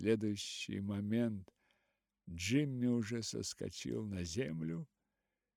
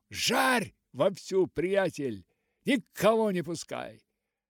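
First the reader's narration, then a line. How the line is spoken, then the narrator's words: Shouting. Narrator (Russian): Джимми, который закричал вагоновожатому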